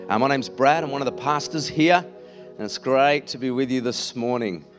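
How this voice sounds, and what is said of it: Slightly croaky voice. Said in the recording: “I know I sound a bit croaky. ... I've had a bit of hay fever lately.”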